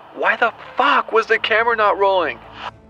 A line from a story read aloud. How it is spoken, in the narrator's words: He yelled